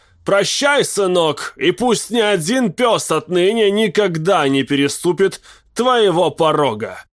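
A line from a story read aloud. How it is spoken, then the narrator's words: Farewell shout. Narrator (Russian): Уэллспринг на прощание крикнул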